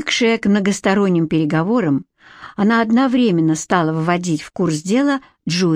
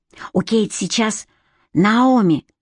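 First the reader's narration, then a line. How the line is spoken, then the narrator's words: Loud whisper. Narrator (Russian): громким шепотом сообщила она ей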